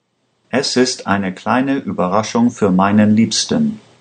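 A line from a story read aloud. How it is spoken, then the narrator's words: Plain. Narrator (German): sagte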